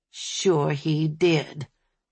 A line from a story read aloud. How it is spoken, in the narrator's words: Sally Lou growled